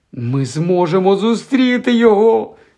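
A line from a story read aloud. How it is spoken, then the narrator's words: Squeaked. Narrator (Ukrainian): запищала Герміона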